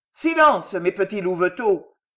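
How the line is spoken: Answering a shouting crowd. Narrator (French): ajouta-t-il en répondant aux vociférations du peuple

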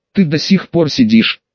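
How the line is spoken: Stunned exclamation. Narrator (Russian): ошарашенно воскликнула Фукусана

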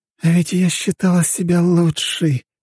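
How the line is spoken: Heavy sigh. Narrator (Russian): тяжело вздохнула женщина

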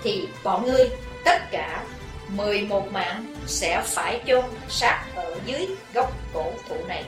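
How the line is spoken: Hissed through clenched teeth. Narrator (Vietnamese): Chí Tôn rít qua hai hàm răng cắn chặt

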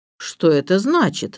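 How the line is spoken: Angry question. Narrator (Russian): спросил сэр Вульфрик сердито

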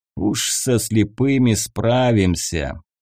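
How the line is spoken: Mocking old man. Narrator (Russian): насмешливо вторил ему старый разбойник

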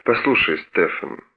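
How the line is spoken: Low voice. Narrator (Russian): вполголоса заговорил

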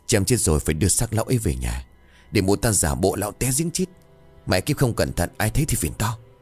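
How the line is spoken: Whisper. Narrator (Vietnamese): Thằng Tức thì thầm

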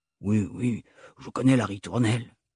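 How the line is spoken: Sighing. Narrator (French): soupira-t-il

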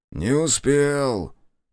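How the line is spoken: Snorting man. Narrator (Russian): хмыкнул мужик в камуфляже

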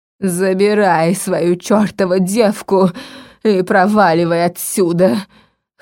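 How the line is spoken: Hoarse, spat out. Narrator (Russian): хрипло выплюнула она

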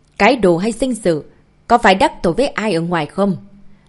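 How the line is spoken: Furious thunderous yelling, phone. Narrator (Vietnamese): trong điện thoại đã vang lên giọng nói tức giận gào thét như sấm

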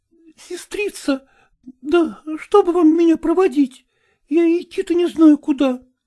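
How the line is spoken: Timid. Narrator (Russian): робко сказала она

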